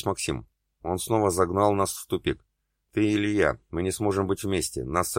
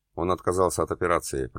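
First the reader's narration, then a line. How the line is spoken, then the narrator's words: Mumbling. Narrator (Russian): пробормотал Ян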